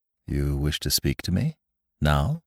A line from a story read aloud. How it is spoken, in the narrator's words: he asked in a low tone